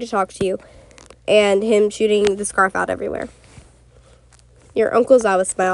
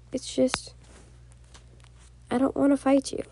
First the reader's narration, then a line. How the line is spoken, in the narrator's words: he said, quietly